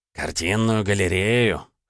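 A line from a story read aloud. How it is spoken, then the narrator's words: Skeptical grunt. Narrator (Russian): хмыкнул вахмистер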